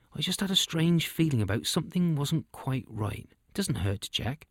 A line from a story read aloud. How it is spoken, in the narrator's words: quietly said